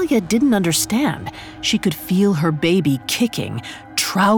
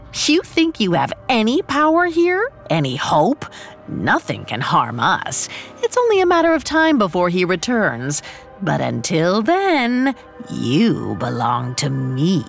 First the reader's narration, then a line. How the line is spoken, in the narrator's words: She scoffed